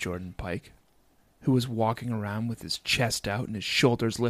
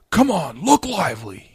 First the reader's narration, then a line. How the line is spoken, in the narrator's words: he yelled